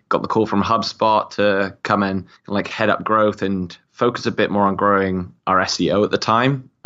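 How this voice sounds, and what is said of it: British accent. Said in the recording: “I was based out of the UK. If you haven't already noticed from my accent”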